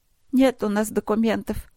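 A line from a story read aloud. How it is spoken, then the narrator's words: Woman sobbing quietly. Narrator (Russian): всхлипывая, тихо отвечала женщина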